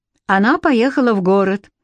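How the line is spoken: Even-voiced reply. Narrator (Russian): ровным голосом ответил Алекс

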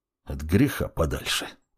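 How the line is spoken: Muttered. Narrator (Russian): пробормотал он

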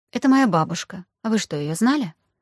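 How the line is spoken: Quiet snort. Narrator (Russian): Руслан тихонько фыркнул

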